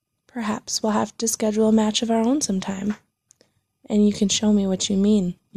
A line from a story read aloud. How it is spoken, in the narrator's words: you offered, gently